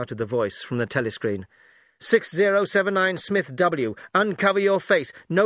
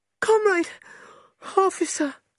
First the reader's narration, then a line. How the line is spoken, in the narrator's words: she cried